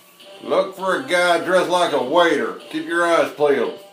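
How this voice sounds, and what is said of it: Put-on redneck accent. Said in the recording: “That's your redneck accent.”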